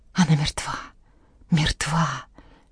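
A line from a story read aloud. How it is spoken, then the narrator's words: Whisper, holding back sobs. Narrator (Russian): шептала Жанна, подавляя рыдание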